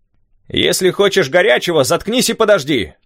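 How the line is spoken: Shouting while smiling. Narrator (Russian): крикнул док, улыбаясь мне

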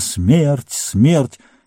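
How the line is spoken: Menacing cry through ranks. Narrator (Russian): грозно прокатилась по рядам

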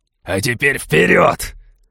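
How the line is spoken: Barking. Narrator (Russian): рявкнул Балфер

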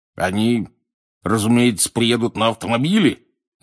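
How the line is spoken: Growling. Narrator (Russian): зарычал через стол дядя Вернон

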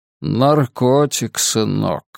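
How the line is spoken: Weary mutter. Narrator (Russian): устало проронил Каин

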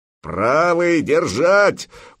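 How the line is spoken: Roaring. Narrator (Russian): взревел Ярл

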